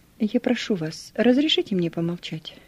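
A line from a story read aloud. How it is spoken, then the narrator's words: Calm, peaceable request. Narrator (Russian): Спокойно и миролюбиво попросил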